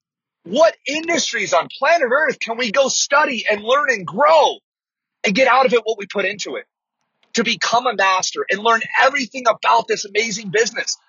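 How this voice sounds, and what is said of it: Excited, energetic delivery. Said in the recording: “you can probably hear in my voice, I get a little excited”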